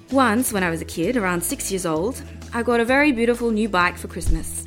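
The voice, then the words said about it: Put-on Australian accent. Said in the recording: “my best Australian accent.”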